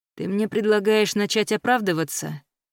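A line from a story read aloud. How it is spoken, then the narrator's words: Lazy question. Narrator (Russian): лениво спросил Кайл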